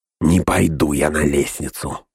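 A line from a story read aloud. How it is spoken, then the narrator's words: Grumbling mutter. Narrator (Russian): буркнул Снага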